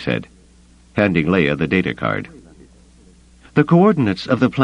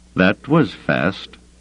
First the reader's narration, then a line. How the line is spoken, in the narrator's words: Drayson said, his voice tinged with suspicion